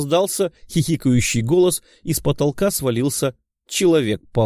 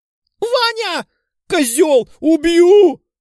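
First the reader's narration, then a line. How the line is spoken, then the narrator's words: Angry shout. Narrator (Russian): закричала девушка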